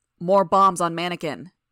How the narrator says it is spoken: he shouted

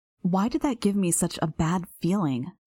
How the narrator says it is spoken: I sighed

